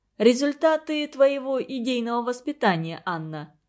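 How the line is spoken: Laughing. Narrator (Russian): засмеялся Игорь Петрович

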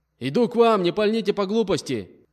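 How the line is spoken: Man shouting. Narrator (Russian): Крикнул мужчина

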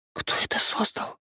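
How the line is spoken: Barely audible question. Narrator (Russian): едва слышно спросила Василиса

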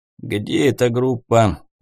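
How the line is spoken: Lazy question. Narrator (Russian): лениво поинтересовался Тихий

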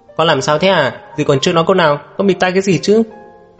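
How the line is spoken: Displeased scolding. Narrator (Vietnamese): Sầm Vân thấy thế bèn không vui, quát một tiếng

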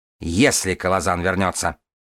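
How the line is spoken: Snapping. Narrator (Russian): огрызнулась ненависть

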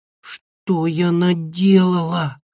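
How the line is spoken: Moan. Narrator (Russian): простонала Анимона

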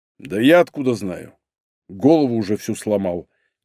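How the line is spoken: Quiet. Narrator (Russian): тихо добавил Игорь

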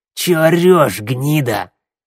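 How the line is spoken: Barked. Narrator (Russian): рявкнул косой

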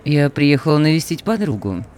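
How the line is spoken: Chirpy polite tone. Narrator (Russian): светским тоном прощебетала Клео

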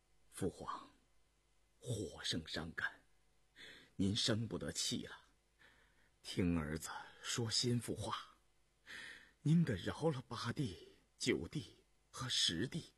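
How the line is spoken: Earnest murmuring. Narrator (Chinese): 胤禛……口中喃喃喁喁恳切地说道

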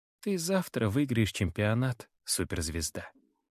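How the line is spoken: Yawning mumble. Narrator (Russian): бормочет, зевая

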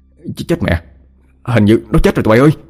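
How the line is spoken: Panicked yelling. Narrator (Vietnamese): Thằng Thông hốt hoảng la lên

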